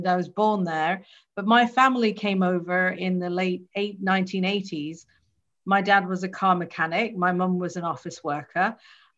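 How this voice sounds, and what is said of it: British English accent. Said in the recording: “my British accent”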